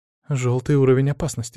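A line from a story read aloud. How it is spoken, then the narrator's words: Quiet. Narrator (Russian): тихо произнесла Марина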